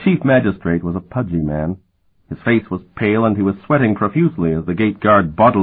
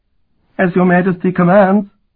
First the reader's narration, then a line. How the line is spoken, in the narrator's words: the magistrate replied in a squeaky voice